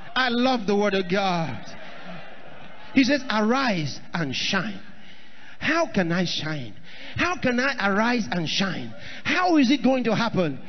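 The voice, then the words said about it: Shouting preacher. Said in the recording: “I'm shouting ... I want to tell you why I'm shouting ... That's why I'm shouting”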